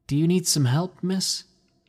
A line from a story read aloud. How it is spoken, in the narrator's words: I asked nervously